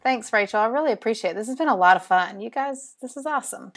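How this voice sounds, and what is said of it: Southern US drawl, Alabama. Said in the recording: “my Southern drawl ... I love your Southern drawl ... I've never met anyone from Alabama”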